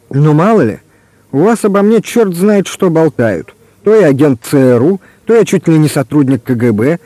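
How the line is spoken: Burst of laughter. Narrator (Russian): и расхохотался

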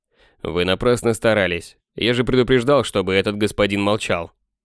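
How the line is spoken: Calm. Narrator (Russian): Кратош спокойно сказал

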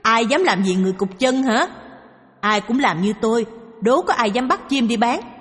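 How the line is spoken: Loud laugh. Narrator (Vietnamese): Anh cười to

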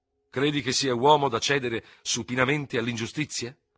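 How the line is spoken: Angry question. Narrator (Italian): chiese con voce irosa

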